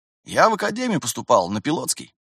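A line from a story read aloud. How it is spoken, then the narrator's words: Fairly calm admission. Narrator (Russian): признался рядовой довольно спокойно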